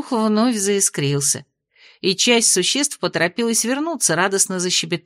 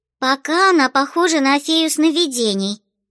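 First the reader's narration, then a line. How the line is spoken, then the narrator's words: Displeased squeaky child. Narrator (Russian): недовольно пропищала малышка в очках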